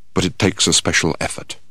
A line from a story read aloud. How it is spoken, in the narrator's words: He then added in a quiet voice